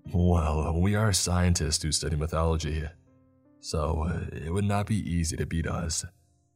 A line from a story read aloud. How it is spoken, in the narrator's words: Grandpa chuckled